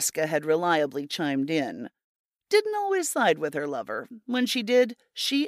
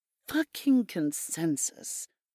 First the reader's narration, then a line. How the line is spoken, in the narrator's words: Jenna had muttered